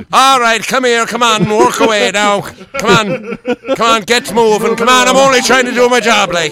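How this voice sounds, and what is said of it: Put-on Irish accent. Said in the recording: “Give him an Irish accent”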